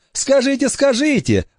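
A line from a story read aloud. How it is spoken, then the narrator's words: Joyful reply. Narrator (Russian): радостно откликнулся Вася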